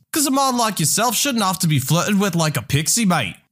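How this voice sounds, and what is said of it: Put-on Scottish accent. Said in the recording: “This man with a Scottish accent”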